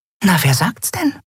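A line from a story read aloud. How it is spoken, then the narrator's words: Whisper to friend. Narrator (German): flüsterte Nelen ihrer Freundin zu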